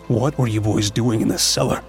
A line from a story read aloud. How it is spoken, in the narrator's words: he asked